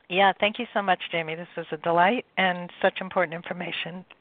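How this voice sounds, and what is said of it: Strained, failing voice. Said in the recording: “my voice is going”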